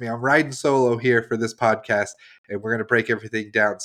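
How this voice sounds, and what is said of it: Slightly nasal congested voice. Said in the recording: “if I sound a little nasally, I'm battling a cold”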